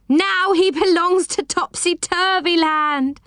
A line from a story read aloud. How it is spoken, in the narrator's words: cried